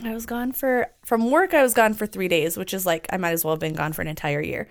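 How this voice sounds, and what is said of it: Lower-pitched, sick-sounding voice. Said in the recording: “my voice is also like an octave lower than it normally is. ... She's just a little sick.”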